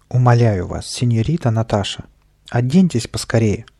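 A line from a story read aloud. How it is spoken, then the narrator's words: Exclaimed. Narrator (Russian): воскликнул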